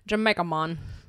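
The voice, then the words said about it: Put-on Jamaican accent. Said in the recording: “that accent”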